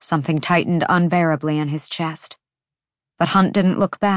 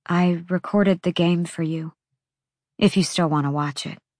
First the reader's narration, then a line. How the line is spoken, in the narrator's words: she said softly